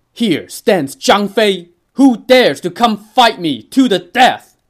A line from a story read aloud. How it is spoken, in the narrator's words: let out a mighty roar